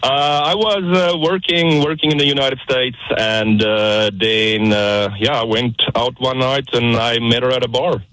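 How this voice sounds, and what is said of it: South African accent. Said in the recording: “South African man ... I love your accent.”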